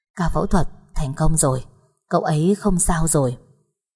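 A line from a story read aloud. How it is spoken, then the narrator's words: Soft, exhausted. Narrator (Vietnamese): Người bác sĩ, gương mặt đầy mệt mỏi sau 6 tiếng đứng mãi trong đó rồi khẽ nói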